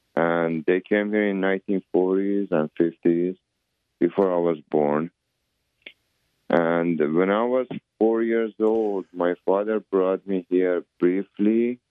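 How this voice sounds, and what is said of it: Iranian-accented English. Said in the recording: “That's why I have accent. I cannot lose my accent ... Iranian accent”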